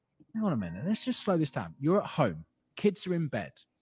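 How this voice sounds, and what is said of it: British accent. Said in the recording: “the British accent makes everything funnier”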